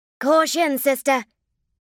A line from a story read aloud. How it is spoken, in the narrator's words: called out Lorelei